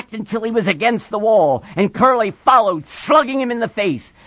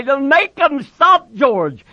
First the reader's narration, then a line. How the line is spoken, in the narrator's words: He cried